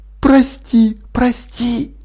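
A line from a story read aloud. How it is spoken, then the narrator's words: Whispering. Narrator (Russian): шепнула Полли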